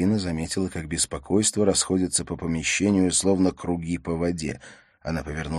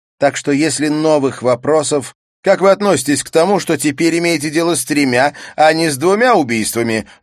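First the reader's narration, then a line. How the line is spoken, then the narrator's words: Shouted from far away. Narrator (Russian): выкрикнул журналист из дальнего конца зала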